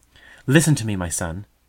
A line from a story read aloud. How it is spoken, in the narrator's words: exclaimed the mother